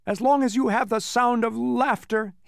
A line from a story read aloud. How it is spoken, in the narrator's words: he groaned unhappily